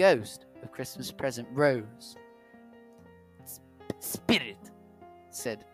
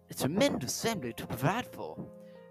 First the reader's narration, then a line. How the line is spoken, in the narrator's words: muttered Scrooge